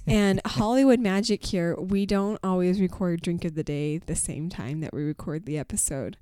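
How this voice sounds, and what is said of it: Rough, strained sick-sounding voice. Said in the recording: “I caught the flu, so you'll notice that my voice is just cheery and beautiful as always ... this voice here is actually improvement ... when I lost it completely”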